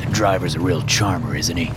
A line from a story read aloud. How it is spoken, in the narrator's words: Liam grunted